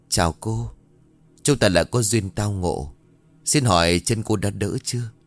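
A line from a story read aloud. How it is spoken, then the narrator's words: Throat-clearing, then speaking. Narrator (Vietnamese): Khẽ hắng giọng để đánh động, thầy Hữu lên tiếng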